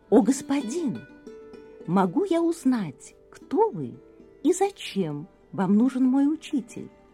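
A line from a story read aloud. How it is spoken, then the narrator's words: Very soft, polite. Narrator (Russian): очень мягко и вежливо спросил ему начальник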